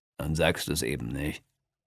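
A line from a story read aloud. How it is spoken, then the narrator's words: Plain. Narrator (German): sagt Mahmud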